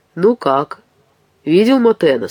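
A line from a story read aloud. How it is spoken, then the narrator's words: Plain. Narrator (Russian): спросил Франсуа Дарьвьер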